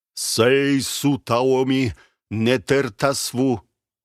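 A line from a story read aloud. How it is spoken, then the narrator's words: Loud, solemn. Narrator (Russian): Он говорил и говорил, громко, торжественно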